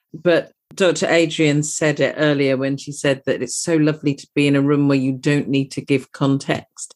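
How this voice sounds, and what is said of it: British accent. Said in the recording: “You can possibly tell from my accent that I'm from across the pond.”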